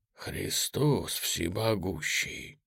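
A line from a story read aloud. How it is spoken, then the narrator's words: Breathed exclamation. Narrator (Russian): только и выдохнул Клейн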